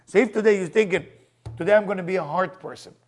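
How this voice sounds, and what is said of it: Foreign-accented English. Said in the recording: “Not hard with my accent, heart.”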